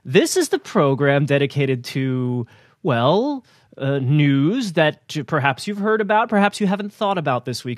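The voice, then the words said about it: Grammar school teacher voice. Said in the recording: “I'm using my grammar school teacher voice.”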